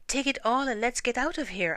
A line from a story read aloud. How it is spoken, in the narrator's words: I cried